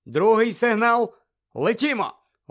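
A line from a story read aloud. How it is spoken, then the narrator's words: Loud command. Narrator (Ukrainian): голосно наказав Люпин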